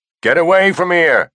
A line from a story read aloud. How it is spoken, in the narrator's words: shouted